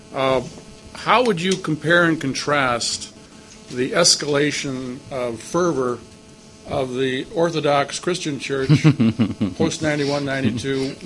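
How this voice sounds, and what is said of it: American accent. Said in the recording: “I speak with an American accent.”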